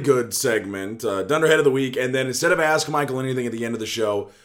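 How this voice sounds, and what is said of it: Hoarse, dry-throated voice. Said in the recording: “my voice is awful. It is hoarse. ... my throat to dry up really badly. And so I sound a little hoarse.”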